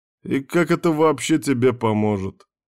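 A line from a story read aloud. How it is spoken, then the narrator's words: Laughing. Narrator (Russian): смеялся Ярван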